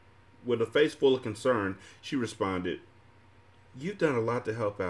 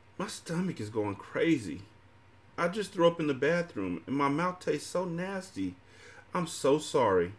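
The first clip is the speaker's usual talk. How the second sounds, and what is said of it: Childlike baby voice. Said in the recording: “In my baby voice,”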